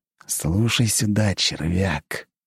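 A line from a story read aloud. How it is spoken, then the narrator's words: Hissing. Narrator (Russian): прошипел Игнат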